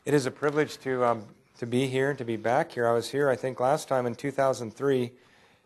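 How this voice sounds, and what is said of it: Hoarse, strained voice. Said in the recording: “Sorry, I lost my voice.”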